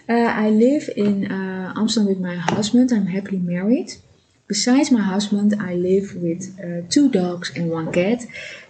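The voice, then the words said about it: Non-native English accent. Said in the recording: “I live in Amsterdam, so sorry for my accident, my accent.”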